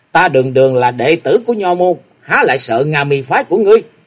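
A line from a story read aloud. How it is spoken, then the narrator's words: Cold laughing. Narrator (Vietnamese): Ngọc Long lạnh lùng cười nói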